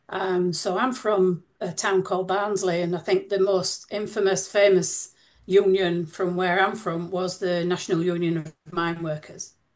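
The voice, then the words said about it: Northern English accent. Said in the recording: “you can tell from my accent that I'm from England. I'm from the north of England”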